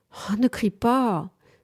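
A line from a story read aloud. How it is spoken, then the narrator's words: Pleading. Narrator (French): supplia Monique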